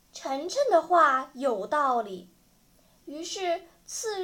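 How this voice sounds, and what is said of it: Usual voice. Nothing is said of it.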